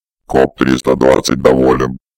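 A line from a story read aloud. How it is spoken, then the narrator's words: Receding robotic drone. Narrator (Russian): прогудел сквозь треск сучьев удаляющийся робот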